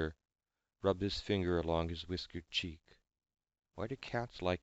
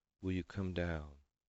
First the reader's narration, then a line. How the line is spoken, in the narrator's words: he asked, softly, gently